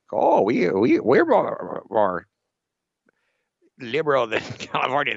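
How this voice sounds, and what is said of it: Mock Vermont accent. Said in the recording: “my impression of a Vermontese accent.”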